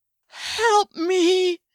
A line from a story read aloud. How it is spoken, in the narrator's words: cried in a panic-stricken whimper